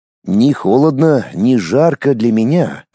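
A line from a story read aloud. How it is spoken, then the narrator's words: Plain. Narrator (Russian): ответила Инна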